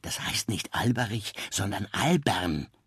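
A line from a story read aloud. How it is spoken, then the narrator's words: Whisper. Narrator (German): Ihre Tischnachbarin Elfriede flüsterte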